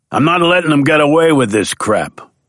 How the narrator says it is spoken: barked Sammy

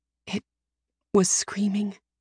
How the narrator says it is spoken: I whisper

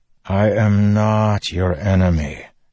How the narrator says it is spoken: Dalinar sighed

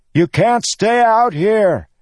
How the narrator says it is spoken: he shouted at them all

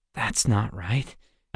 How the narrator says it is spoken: Alex said softly

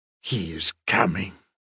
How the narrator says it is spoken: he says in a guttural, hollow-gassed snarl

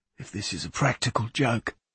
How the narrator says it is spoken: he whispered

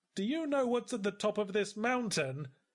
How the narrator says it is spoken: I yelled

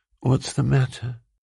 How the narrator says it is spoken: Julia rolled sleepily against him, murmuring

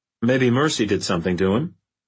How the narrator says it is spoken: offered Adam dryly

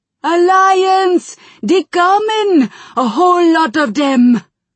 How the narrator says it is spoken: Garrosh roared in anger

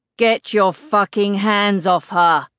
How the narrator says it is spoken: The roar that pierces the air around me, blocking out all car horns and London traffic

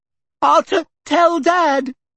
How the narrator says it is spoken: Dudley whimpered

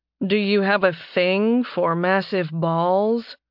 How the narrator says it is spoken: He asked dryly

